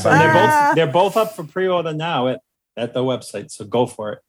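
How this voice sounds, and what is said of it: Speaks with a noticeable accent. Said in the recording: “just so folks can hear it in your accent”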